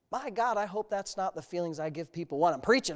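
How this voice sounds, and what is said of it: Sarcastic tone. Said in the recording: “I'm saying that sarcastically,... with some sarcastic tone”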